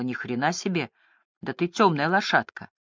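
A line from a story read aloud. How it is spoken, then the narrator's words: Sad reply. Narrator (Russian): Леди Си грустно ответила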